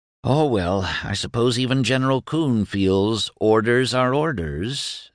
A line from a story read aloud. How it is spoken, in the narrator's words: sighed Doremus